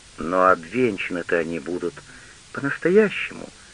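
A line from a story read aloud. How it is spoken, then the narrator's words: Gentle question. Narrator (Russian): ласково спросила Вайо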